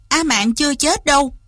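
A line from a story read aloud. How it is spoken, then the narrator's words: Pained, loud. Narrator (Vietnamese): Lý Văn Tú trong lòng càng thêm chua xót, lớn tiếng nói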